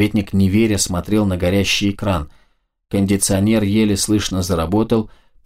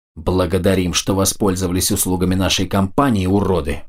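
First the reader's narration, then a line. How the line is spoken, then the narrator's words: Growled. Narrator (Russian): прорычал он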